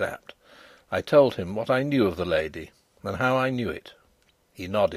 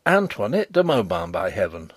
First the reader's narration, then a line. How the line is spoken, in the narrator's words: I cried